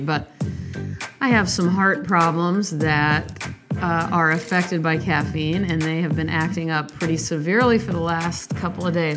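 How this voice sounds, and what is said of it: Sleepy, low-energy voice. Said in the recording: “I sound a little sleepy, a little low energy”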